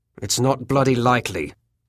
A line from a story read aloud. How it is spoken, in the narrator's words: he said harshly